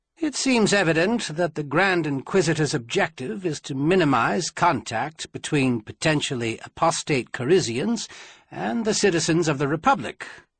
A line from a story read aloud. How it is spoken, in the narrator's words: Quentin said calmly